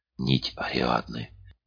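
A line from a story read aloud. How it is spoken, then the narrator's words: Enchanted whisper. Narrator (Russian): прошептала Лата, зачарованно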